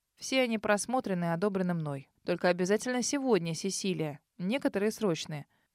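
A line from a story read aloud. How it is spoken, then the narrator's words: Stern. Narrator (Russian): строго добавил Себастьян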